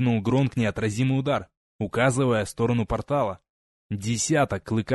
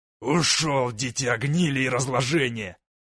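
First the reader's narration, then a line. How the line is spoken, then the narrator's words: Angry growl. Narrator (Russian): гневно прорычал Гронк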